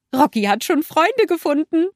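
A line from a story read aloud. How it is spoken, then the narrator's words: Giggling. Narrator (German): Olaf kicherte und sagte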